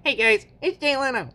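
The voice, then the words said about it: Imitates another person's voice. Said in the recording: “that was my Jay Leno impression”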